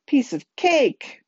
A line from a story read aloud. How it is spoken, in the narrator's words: Connor replied, laughing at his own joke